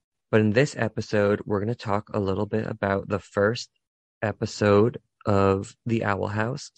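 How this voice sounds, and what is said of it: Hoarse, strained voice. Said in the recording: “I'm kind of losing my voice because I've been yelling at kids all week”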